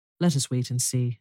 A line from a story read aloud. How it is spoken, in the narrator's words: answered Beauty